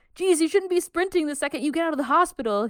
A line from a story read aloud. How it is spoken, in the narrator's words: he shouts